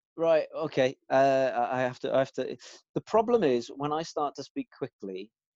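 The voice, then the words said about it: Welsh accent. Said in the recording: “the Welsh accent”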